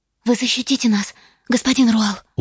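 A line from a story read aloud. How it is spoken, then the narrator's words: Brittle, frightened question. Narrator (Russian): Ломким голосом спросила бледная Лина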